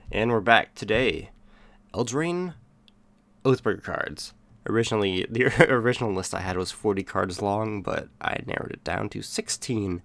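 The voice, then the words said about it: Nasal, congested sick voice. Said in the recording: “I'm a little sick today, so in case I sound nasally,”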